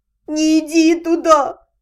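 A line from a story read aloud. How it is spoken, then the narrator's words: Miserable convulsive sob. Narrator (Russian): Несчастный дракончик судорожно всхлипнул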